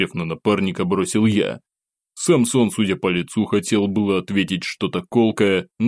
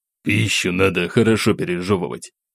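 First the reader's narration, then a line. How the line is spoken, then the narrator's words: Muttered, slightly frowning. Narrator (Russian): слегка нахмурившись, буркнул он себе под нос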